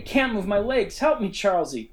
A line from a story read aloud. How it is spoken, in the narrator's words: frantically, then yelled